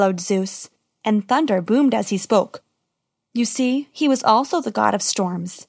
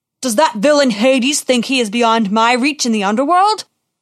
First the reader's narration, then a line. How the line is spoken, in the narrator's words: Zeus roared